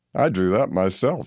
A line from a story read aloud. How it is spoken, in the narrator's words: chuckled with a leer